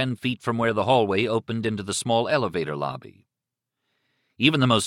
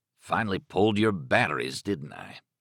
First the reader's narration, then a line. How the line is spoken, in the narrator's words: Stark murmured